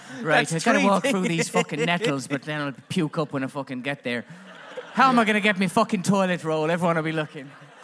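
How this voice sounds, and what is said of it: Put-on Irish accent. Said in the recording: “Sorry for the Irish accent.”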